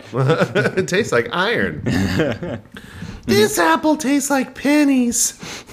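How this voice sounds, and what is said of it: Imperfect Ralph Wiggum voice impression. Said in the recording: “I was trying to do a Ralph Wiggum voice, but it wasn't quite there... It was not my best work.”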